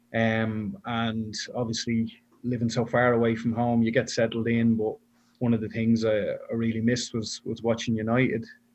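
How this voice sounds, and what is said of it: Irish Dublin accent. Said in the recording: “you can probably tell by my accent, I'm not originally from Brisbane. So I came out here from Dublin”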